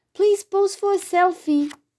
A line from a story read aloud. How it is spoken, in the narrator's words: eagerly cried